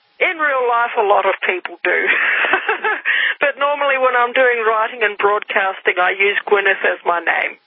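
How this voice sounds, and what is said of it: Slight Australian accent. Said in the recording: “You sound like you have a little bit of an Aussie accent.”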